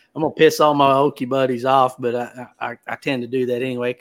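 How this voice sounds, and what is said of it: Southern US accent. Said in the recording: “you got a Southern accent”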